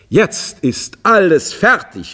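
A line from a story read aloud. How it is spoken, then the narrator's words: Calling out. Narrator (German): rief er endlich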